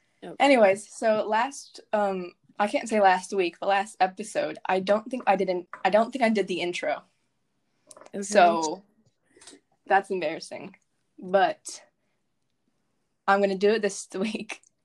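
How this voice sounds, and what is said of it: Out of breath, breathy speech. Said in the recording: “I'm out of breath because I had to walk up and down the stairs ... I'm out of breath from walking up and down the stairs”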